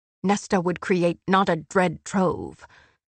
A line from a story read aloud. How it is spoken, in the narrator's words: Amryn said, unfazed by his snarling